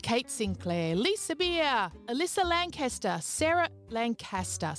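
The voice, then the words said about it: Put-on Queensland Australian accent. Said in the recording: “that was my Queensland accent.”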